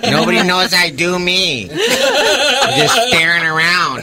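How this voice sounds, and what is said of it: Imitates another person's voice. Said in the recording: “the greatest impression you've ever heard”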